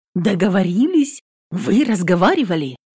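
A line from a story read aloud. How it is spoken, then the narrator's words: Anxious question. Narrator (Russian): спрашивает взволнованно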